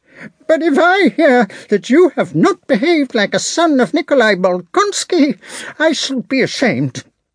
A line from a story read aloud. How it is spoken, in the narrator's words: He paused unexpectedly, and then, in a querulous voice, suddenly shrieked